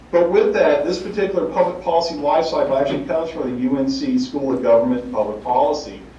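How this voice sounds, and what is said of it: Southern US accent, North Carolina. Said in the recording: “I do hail from the southeast of the United States, North Carolina in particular, so you hear my accent.”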